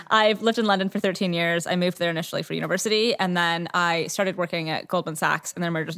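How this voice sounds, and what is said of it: Canadian English accent. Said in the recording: “I'm Canadian originally, for anyone that's curious about the accent.”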